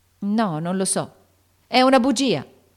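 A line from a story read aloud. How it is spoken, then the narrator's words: Shouted. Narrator (Italian): gridò Joe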